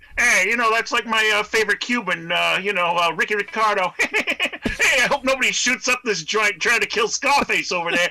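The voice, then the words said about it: Richard Belzer impression, Bugs Bunny mafia. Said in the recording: “give me your Richard Belzer impersonation ... Richard Belzer or Bugsy Malone? ... Sounds more like Bugs Bunny doing a mafia impression”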